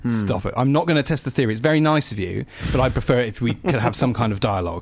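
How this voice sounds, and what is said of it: Semi suave British accent. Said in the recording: “a semi suave British accent like you do”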